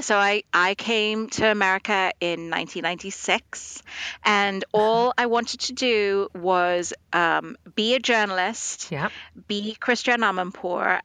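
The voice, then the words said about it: British-influenced accent. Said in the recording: “I came up through the British system, which is why I have this accent.”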